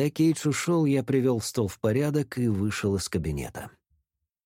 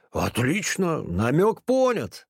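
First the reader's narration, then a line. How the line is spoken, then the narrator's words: Grumbling. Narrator (Russian): проворчал он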